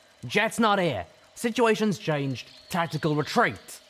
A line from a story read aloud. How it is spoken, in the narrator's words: The fiery-maned cloud-white mare shouted